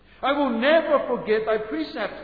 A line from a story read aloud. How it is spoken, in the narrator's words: the psalmist cried